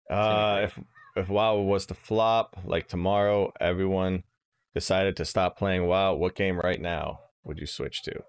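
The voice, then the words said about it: Sad-sounding voice. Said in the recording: “do you sound sad all of a sudden, dude? ... I sound sad”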